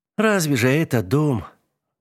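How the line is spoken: Sighing. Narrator (Russian): девушка вздохнула

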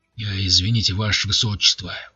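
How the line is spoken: Tense voice. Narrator (Russian): произнес он напряженным голосом

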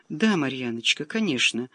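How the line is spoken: Sighed. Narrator (Russian): вздохнула та

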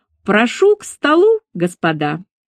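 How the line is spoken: Loud announcement. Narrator (Russian): громко произнесла

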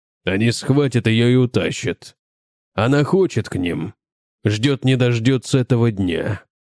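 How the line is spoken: Hoarse. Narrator (Russian): сказал он хрипло

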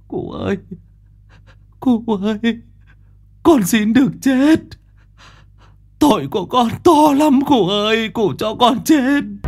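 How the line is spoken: Tearful whimpering plea. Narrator (Vietnamese): thằng Mõ, nó mếu máo

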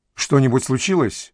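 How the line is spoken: Quick reply. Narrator (Russian): Киселев быстро ответил

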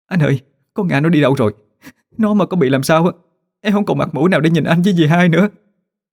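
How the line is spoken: Sobbing. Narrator (Vietnamese): Ngọc bật khóc nức nở

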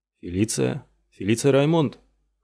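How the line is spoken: Hoarse question. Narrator (Russian): хрипло переспросил ее Килнер

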